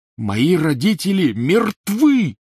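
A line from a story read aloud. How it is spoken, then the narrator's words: Roaring. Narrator (Russian): взревел Гарри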